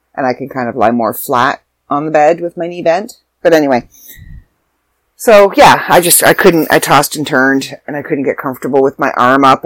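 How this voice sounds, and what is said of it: Stuffy voice with sore throat. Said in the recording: “you can probably hear it in my voice. I've got a little bit of a sore throat. ... I'm a little stuffy.”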